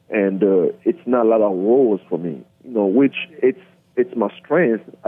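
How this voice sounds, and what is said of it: Noticeable non-native accent. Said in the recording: “Have an accent. I know when I act, I reduce my accent a little bit, but still have it.”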